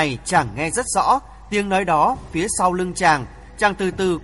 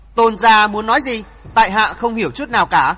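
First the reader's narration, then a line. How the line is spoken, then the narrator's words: Loud. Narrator (Vietnamese): Hoàng Thượng Chí lớn tiếng nói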